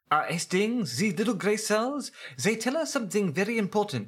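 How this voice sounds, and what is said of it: Belgian accent, Hercule Poirot impression. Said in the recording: “my world-class Belgium accent as Hercule Poirot”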